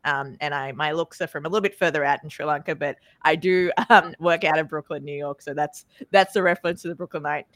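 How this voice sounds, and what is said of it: Australian accent. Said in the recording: “She doesn't sound like she's from Brooklyn. My accent is from Australia”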